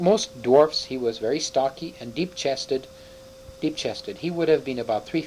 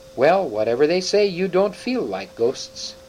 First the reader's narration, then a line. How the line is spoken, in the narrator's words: the dwarf exclaimed